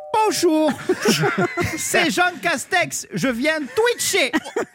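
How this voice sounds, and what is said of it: Imitates another person's regional accent. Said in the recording (French): “faut arrêter d'imiter son accent parce que ça s'appelle de la glottophobie ... C'est de la discrimination par l'accent.”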